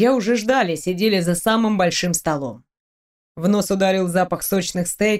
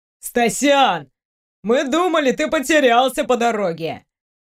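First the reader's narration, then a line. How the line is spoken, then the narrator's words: Cheerful shout. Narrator (Russian): весело закричал Тёмыч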